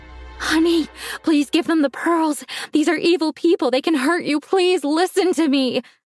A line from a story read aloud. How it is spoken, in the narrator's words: begged